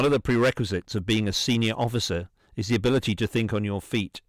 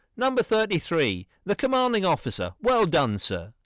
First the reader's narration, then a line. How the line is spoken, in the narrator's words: the NCO in charge called out